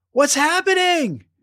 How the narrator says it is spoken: cried Abigail

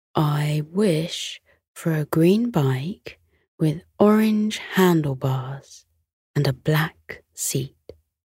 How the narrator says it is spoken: he whispered to the star, hopefully

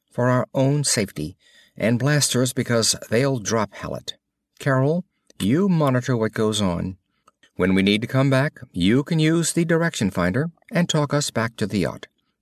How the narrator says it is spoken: said Moran evenly

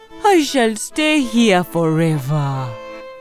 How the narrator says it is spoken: he said miserably

